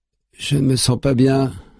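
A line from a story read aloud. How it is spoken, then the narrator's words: Stammering. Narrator (French): bafouille son fils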